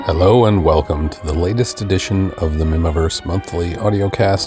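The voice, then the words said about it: Weak, raspy voice. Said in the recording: “my voice is pretty shot ... my voice is a little weak, a little raspy”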